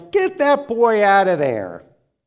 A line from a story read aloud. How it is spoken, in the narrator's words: shouted and jeered